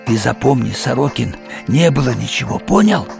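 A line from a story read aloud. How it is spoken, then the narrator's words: Hissed, spluttering. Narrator (Russian): брызгая, прошипел мне в лицо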